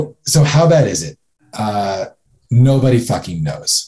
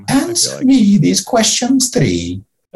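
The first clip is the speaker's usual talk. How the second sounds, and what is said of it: Imitates a comedy film character voice. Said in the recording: “great Monty Python impersonation”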